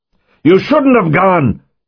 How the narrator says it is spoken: Yakov shouted over the buzz of the outboard

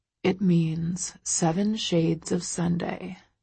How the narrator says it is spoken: he murmurs against my lips

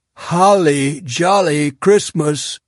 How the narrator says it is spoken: at the top of his fracking voice

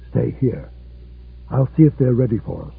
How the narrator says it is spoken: whispered in Czech

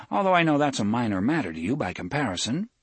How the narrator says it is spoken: Cuthbert added dryly

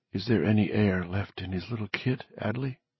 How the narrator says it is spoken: Bobby whispered

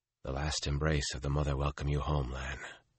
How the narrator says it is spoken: Rand muttered

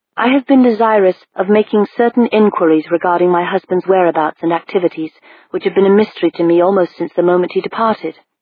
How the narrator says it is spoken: she said

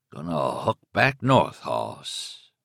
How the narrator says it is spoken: say in a low, guttural voice, a voice which was not his own

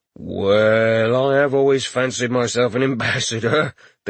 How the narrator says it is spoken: the guard chuckled

